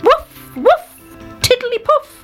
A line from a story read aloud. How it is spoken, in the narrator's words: he shouted